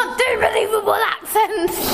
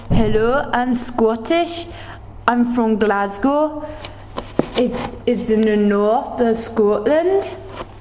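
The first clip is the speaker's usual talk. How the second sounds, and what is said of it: Put-on Scottish accent, not very believable. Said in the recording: “I give you a Scottish accent ... Scottish accents are fairly easy to do if you're English, so I'm going to give you a big trusty 7, just because I would have given you a 10 if it was very believable”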